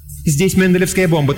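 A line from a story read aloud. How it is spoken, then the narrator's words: Hurried. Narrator (Russian): торопливо сообщила она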